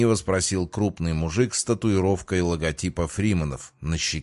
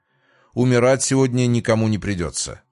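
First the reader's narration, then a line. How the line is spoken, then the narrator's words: Cold reply. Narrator (Russian): холодно ответил я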